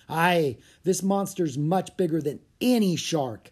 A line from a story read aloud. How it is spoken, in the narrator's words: shouted Joe